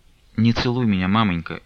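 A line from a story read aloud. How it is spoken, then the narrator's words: Barely audible. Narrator (Russian): едва слышно промолвила Настя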